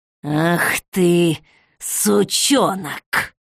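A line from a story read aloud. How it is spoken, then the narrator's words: Hoarse growl, old woman. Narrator (Russian): Хрипло рыкнула бабка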